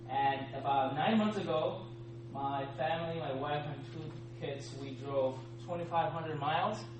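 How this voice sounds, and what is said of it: Speaks with a noticeable accent. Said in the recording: “if for whatever reason you do not understand my accent”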